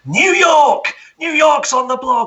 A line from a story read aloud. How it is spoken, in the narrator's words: Thomas screams